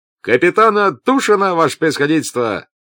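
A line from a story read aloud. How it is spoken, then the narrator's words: Cheerful shout. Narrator (Russian): закричал веселым голосом рыжий с покрытыми веснушками лицом фейерверкер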